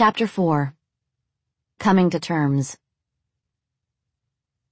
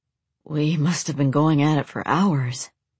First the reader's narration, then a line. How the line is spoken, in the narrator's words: he breathed